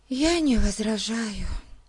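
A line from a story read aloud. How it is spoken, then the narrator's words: Sigh. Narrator (Russian): вздохнула Дейзи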